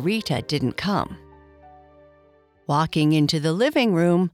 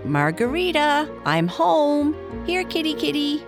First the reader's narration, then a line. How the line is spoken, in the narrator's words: Libby called out